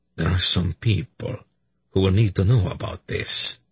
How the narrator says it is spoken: he said grimly

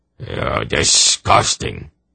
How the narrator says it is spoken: Yarblek growled

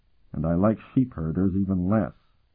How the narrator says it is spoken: Curic muttered

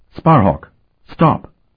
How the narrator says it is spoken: Sophronia told him sharply

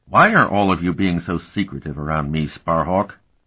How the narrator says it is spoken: he demanded irritably

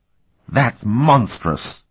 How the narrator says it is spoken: Ortzel exclaimed

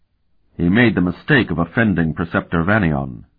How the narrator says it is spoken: Sparhawk murmured in his ear

